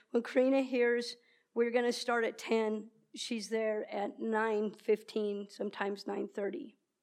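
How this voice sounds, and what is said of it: Emotional, wavering voice. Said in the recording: “getting emotional”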